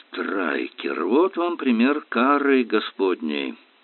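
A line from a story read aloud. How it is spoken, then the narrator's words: Muttering. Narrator (Russian): пробормотал Ярли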